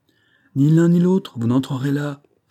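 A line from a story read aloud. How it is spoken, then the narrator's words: Exclaimed. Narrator (French): s'écria Banks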